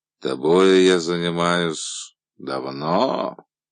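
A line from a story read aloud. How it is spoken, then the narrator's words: Drawn-out final word. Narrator (Russian): он протянул последнее слово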